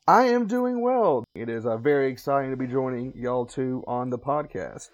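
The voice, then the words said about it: Southern American accent. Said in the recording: “I am from a little bit farther south in America than y'all two ... hopefully everyone can still understand the accent”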